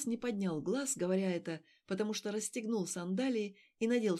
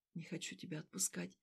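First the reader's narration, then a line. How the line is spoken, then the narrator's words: Very soft male whisper. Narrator (Russian): очень тихо прошептал он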